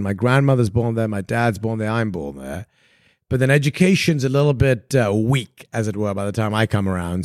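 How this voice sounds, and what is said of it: Posh English accent. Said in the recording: “your posh accent”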